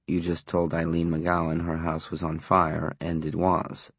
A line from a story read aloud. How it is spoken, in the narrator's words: Sam said softly